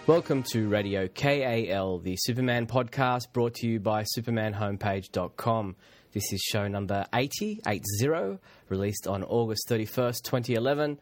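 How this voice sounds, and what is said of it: Congested voice from a cold. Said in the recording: “Please excuse my voice. I've got a bit of a cold going on at the moment, so trying to stay as clear-throated as I can”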